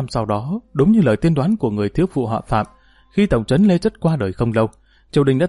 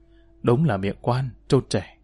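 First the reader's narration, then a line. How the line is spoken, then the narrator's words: Soft. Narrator (Vietnamese): Ông nói khẽ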